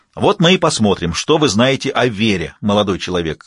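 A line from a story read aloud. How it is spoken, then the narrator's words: Even tone. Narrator (Russian): ровным тоном произнес он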